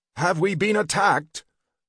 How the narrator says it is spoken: Algeron shouted after Sniffton

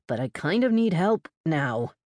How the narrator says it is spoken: exhaled through gritted teeth

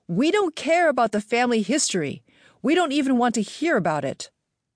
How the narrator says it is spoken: Connie drew close to me, face to face, and shouted with great intensity

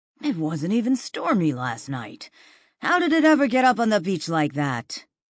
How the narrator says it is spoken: Pete said in a breathless voice

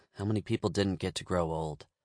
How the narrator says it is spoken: I muttered to myself

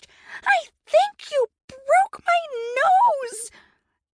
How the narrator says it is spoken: Tabby covered her face with her hands and screeched

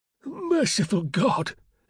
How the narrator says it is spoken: exclaimed the prelate

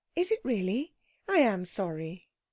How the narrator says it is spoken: She said gently

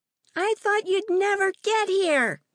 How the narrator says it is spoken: Maddie shouted from the porch of the rental house

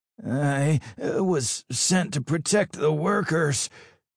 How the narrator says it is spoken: the engineer stammered, barely able to catch his breath

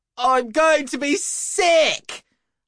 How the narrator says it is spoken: shouted

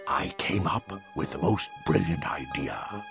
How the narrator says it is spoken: he whispered

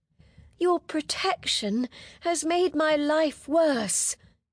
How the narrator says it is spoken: she groaned

